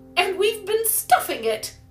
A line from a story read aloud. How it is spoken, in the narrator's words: cried Polly merrily